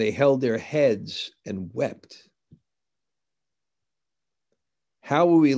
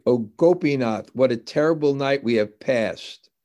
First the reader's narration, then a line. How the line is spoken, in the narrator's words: They cried